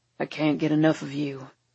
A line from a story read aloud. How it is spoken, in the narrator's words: he rumbles